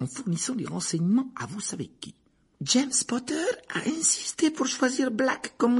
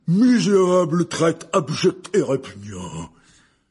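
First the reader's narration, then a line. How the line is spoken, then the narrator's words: Very loud exclamation. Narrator (French): s'exclama Hagrid d'une voix si forte que la moitié des clients interrompirent leur conversation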